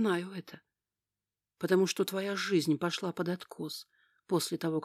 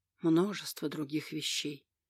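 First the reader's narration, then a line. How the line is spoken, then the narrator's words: Sad. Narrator (Russian): печально сказал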